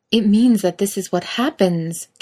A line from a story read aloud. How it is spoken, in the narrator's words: Kate exclaims, frustrated